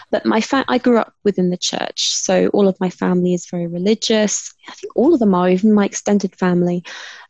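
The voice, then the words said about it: British accent. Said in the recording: “my sexy British accent”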